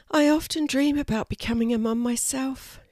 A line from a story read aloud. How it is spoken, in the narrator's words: she sighed